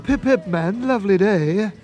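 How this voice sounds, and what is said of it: Put-on British accent. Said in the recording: “put on a British accent”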